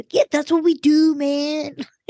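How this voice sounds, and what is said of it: Impression of Tom Sandoval. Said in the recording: “her impression of Sandoval”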